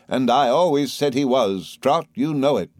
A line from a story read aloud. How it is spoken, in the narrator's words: exclaimed my aunt